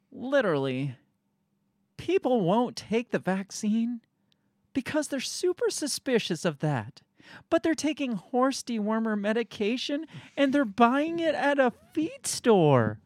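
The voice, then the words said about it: Condescending imitation of another person's voice. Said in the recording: “my best Rachel Maddow impersonation ... you had very good inflection ... You can hear the condescension.”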